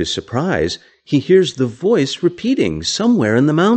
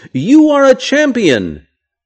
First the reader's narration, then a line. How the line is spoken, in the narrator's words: Again, the man screams